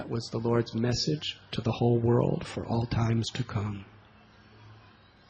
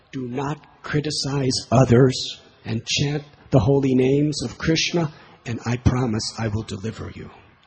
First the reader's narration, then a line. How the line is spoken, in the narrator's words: he cried out